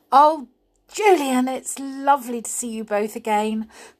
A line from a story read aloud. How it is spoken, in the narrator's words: cried Anne